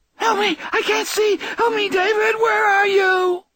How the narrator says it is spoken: her screaming

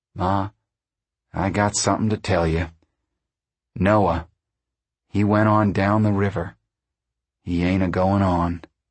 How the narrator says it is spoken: Tom said uneasily

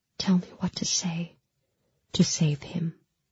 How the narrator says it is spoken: I whispered

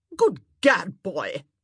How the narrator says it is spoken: she barked

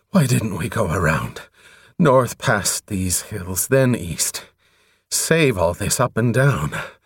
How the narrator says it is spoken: When he had regained himself a little, he panted

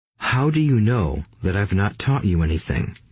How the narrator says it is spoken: asked Rich Dad calmly

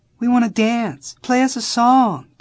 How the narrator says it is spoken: the girls were pleading

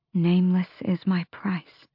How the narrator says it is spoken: Aelin murmured

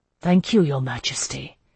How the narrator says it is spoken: he murmured

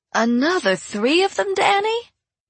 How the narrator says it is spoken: Rainy Lane exclaimed

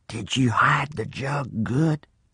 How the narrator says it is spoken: He whispered and asked

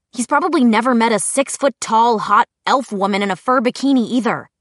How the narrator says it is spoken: Clary said irritably

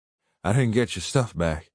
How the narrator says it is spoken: I said, gasping for breath

